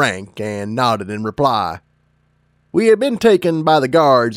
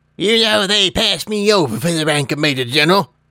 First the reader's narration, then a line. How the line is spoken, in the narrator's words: he said with an indignant snort